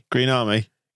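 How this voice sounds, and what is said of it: Put-on West Country farmer accent. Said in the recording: “have I mixed my accent up there? ... You were a pirate or a farmer there? ... That's closer to farmer. ... That's closer to Bristol, I think.”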